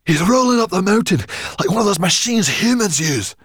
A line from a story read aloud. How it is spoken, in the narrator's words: gasped Sorrel